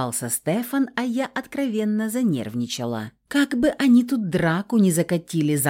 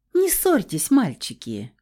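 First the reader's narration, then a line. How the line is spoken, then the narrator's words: Carefree laughing woman. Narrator (Russian): Беззаботно хохотнула белокурая красотка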